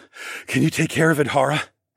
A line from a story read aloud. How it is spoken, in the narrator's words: I asked breathlessly